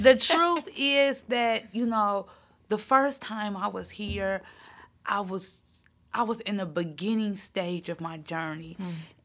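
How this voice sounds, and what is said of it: Teary, emotional voice. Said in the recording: “I'm getting teary.”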